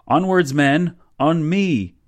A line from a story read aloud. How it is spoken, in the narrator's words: yelled